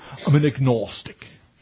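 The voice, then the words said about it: Put-on posh Oxford accent. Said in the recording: “you use an Oxford accent”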